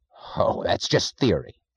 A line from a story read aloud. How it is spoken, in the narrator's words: snapped Mr